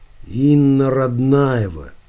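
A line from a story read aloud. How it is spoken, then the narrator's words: Mumble. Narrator (Russian): пробормотал Иванов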